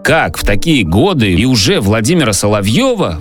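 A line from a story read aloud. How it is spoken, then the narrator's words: Exclaimed. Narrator (Russian): воскликнул он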